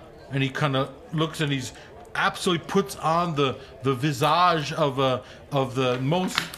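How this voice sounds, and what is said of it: Usual voice. Nothing is said of it.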